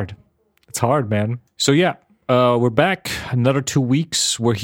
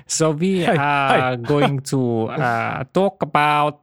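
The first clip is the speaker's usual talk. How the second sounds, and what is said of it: Put-on South African accent. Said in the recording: “I switched the accent. ... Went South African for some reason.”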